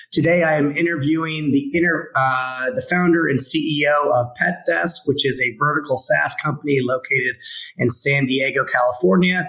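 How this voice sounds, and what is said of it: Slightly sick, bronchitic voice. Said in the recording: “with a slight bit of bronchitis. Forgive my voice.”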